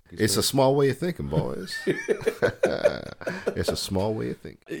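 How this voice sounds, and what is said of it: Put-on Southern US accent. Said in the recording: “I'm still in my southern accent, boys.”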